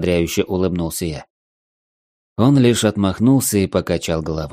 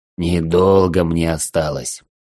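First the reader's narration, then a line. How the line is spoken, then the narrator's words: Wheezing, heavy breathing. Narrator (Russian): Тяжело дыша, он прохрипел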